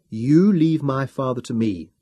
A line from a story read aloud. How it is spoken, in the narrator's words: said firmly